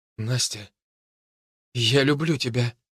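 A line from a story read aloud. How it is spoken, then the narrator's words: Breathless exhale. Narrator (Russian): выдохнул Костя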